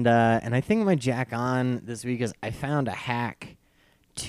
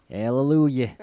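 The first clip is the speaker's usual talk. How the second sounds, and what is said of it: Failed attempt at Philadelphia accent. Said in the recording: “I don't know how to do a Philadelphia accent.”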